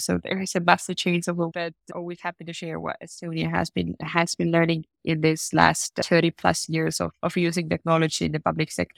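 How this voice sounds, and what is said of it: Congested, slightly odd-sounding voice. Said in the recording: “my voice has been a little weird because I have a runny nose.”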